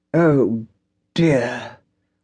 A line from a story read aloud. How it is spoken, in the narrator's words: Witherspoon sighed